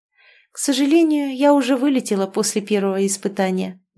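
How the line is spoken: Sigh. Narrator (Russian): вздохнула

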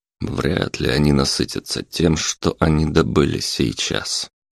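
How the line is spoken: Gloomy. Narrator (Russian): мрачно произнес Карпов

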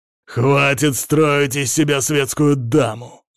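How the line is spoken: Barked. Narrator (Russian): рявкнул Сажен

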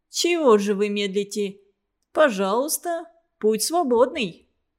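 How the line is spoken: Mocking, hurrying. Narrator (Russian): Насмешливо поторапливал Хлуденев

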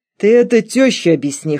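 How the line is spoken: Smirking snort. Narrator (Russian): хмыкнул Валера

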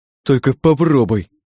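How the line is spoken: Whimper. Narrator (Russian): прохныкал он

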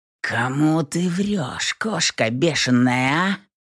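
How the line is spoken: Hoarse rasp. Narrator (Russian): Прохрипел

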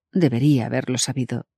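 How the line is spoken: Sad. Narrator (Spanish): dijo Dani tristemente

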